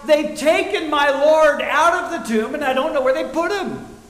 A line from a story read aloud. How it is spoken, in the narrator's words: Mary shouts